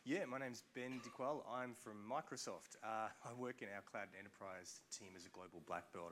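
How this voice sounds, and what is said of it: Australian accent. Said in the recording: “You can tell by the accent, maybe, but not from the US.”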